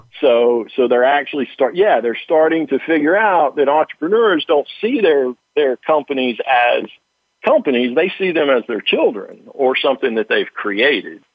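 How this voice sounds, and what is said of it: Slight Southern American accent. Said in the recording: “I got a little bit of a Southern accent”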